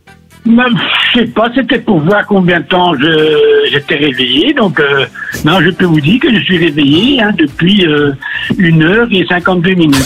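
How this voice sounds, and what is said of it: Belgian French accent. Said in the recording (French): “ce petit accent belge ... cet accent belge”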